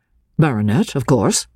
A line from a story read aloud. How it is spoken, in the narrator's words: answered, rather coldly